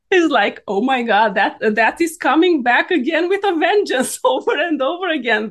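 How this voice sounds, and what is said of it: Non-native English accent. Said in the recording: “My accent ... not being able to speak perfectly”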